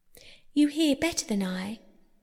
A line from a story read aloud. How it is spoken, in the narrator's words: said the Mole sadly